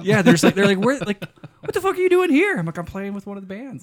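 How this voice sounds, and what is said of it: Rural Nevada American accent. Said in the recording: “your redneck Nevada accent?”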